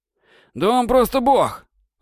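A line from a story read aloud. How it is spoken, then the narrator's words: Exclaimed. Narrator (Russian): воскликнул Кацу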